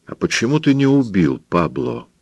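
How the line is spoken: Very quiet question. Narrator (Russian): спросил цыган совсем тихо

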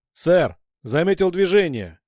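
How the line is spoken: Shouting. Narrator (Russian): крикнул Натадар

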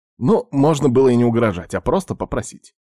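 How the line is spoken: Wry snort. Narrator (Russian): хмыкнул

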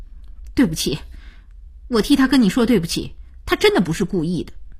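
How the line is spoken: Stern, resolute. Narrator (Chinese): 声音凛然起来

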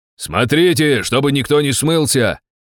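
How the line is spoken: Shout. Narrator (Russian): крикнул я

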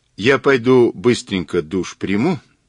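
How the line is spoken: Plain. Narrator (Russian): сказала Ирина

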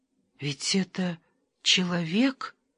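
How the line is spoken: Whisper. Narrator (Russian): прошептала Вера

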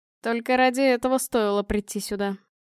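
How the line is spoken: Sighing. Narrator (Russian): вздохнул Павел

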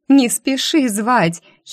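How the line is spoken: Giggling. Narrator (Russian): хихикнула я

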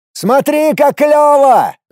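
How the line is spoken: Shouting into ear. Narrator (Russian): заорал я на ухо Паше

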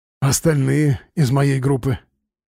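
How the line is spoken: Hoarse whisper. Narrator (Russian): хрипло прошептал Слава

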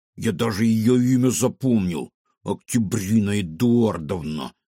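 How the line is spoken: Through gritted teeth. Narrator (Russian): процедил кефир

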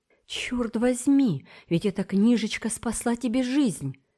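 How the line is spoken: Exclaimed. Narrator (Russian): воскликнул Смуга

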